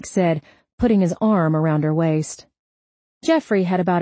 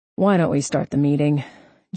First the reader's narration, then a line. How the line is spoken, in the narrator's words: Jeffrey grumbled